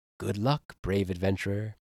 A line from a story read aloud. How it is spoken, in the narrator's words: a voice in your head whispers